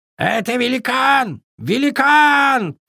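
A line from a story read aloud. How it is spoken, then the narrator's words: Frightened bird shouting. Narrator (Russian): прокричал перепуганный ворон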